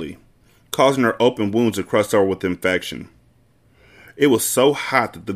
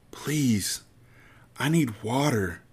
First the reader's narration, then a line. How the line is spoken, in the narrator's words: Breeze whispered, her eyes pleading